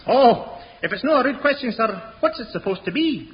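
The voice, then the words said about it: Put-on Scottish accent. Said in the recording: “Remember your Scottish accent here.”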